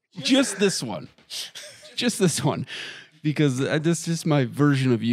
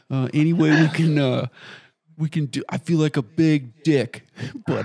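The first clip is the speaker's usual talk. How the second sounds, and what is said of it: Imitates another person's voice. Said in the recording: “that's a super good impression.”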